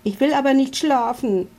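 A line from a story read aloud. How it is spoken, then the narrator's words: Shout. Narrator (German): schreit Milo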